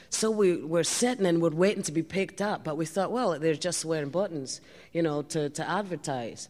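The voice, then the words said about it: Put-on Glaswegian Scottish accent. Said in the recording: “a dialect like this ... also from Glasgow ... I'll tell you in this dialect.”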